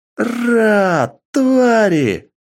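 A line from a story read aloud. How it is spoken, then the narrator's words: Sharp shriek. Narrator (Russian): резко завизжала она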